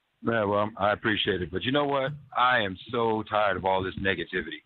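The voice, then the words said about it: Deep sultry radio voice. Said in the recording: “our buddy with the sultry tones ... a real radio voice”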